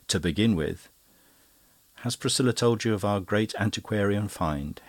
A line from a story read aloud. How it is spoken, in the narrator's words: said Denis, smiling happily